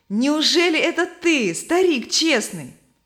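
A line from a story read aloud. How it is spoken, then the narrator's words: Joyful greeting. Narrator (Russian): Стой Твердо радостно обратился к нему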